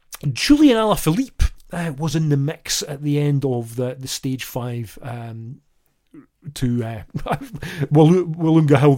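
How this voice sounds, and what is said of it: Slightly flu-ish, unwell voice. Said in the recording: “you may have heard it in my voice, a little flu-ish”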